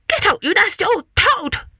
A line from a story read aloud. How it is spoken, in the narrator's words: shrieked Babbity Bumble